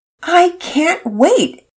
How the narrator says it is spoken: Pearson exclaimed

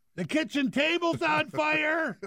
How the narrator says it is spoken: My brother ... screaming at the top of the stairs

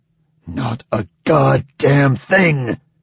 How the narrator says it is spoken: Bhutan spat the words

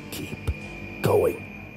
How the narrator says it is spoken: The man's voice spoke again, this time more sternly, though still in a whisper

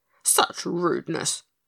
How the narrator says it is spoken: grunted her companion, with an angry snort

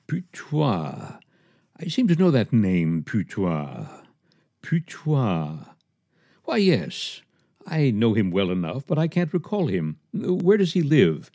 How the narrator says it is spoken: Madame Cornuiller went off mumbling

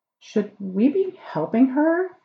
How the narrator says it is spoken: Anael said anxiously

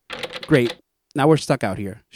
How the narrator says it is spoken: she says angrily

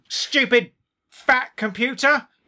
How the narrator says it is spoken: yelled Gret

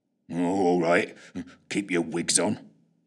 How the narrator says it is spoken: muttered Fitch, trying not to show how unnerved he was by the whole escapade

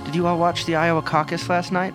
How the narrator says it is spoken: the reporter asks

